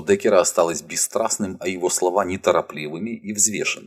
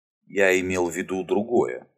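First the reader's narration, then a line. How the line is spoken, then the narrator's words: Calm reply. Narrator (Russian): спокойно ответил Амос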